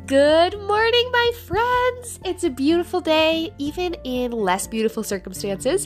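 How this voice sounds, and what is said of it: Nasal, stuffed-up voice. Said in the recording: “I don't know if you can hear in my voice. ... I'm a little bit like nasally stuffed up. I think my allergies are just kicking into gear harder than normal”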